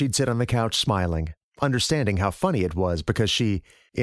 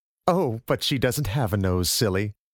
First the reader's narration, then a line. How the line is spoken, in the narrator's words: Her mother would laugh and say